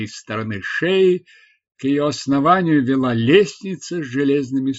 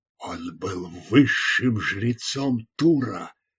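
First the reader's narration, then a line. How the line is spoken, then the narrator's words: Whisper. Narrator (Russian): прошептал Горхаджус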